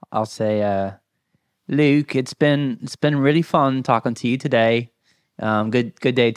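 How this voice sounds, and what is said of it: Put-on British accent. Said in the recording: “your best British accent”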